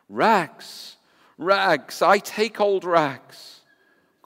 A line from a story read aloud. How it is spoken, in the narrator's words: cried the sobbing, bleeding, strong, intelligent ragman